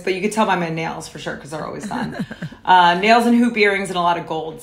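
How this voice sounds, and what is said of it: New York New Jersey accent. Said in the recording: “I'm an East Coaster. I'm from New York and New Jersey, if you can't tell by my voice.”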